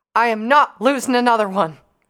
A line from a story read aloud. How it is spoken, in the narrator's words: shouted